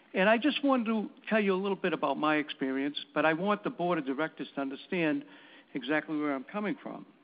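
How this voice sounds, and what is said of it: Boston accent. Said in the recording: “It sounds like you have that certain accent.”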